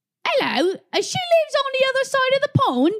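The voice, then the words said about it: Put-on British accent, poorly done. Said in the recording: “can we restart without in her accent? ... I want to personally apologize to everybody in the UK for what ... just did.”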